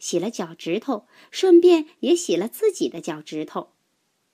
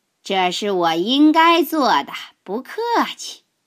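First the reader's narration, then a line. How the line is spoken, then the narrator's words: Cheerful laughing. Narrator (Chinese): 大鲸鱼笑呵呵地说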